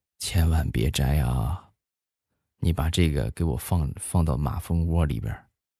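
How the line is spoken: Soft voice. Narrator (Chinese): 轻声的跟我说道

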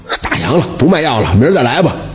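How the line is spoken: Reluctant grumbling. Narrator (Chinese): 药铺的掌柜的 心里就一万个不乐意，嘴里嘟囔着说

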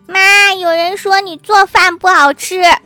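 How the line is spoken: Child shouting. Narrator (Chinese): 小男孩大喊对服务员说

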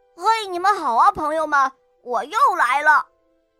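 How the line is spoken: Loud, confident. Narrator (Chinese): 哈瓦尔昂首挺胸地 大声地说道

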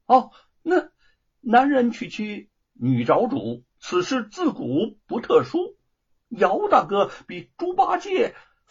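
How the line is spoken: Laughing. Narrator (Chinese): 吴承恩笑着说

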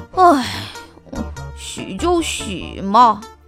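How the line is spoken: Sighing. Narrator (Chinese): 臭烘烘先生叹了一口气说

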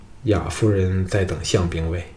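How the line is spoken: Low grim voice. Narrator (Chinese): 程旭……沉着脸低声说

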